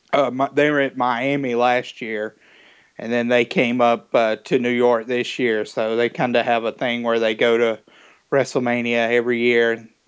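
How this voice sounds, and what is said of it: Strong Southern American accent. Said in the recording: “my Southern accent ... my Southern accent is pretty prevalent”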